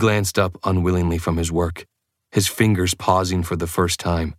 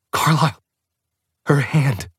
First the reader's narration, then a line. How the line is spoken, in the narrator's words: All I could gasp out was